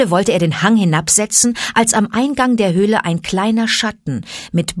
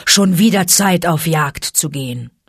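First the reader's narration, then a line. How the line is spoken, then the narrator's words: Father wolf growling. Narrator (German): knurrte Vater Wolf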